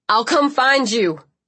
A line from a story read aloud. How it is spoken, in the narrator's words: Liam was shouting